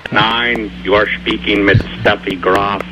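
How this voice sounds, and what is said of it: Put-on German accent. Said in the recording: “My accent is totally different.”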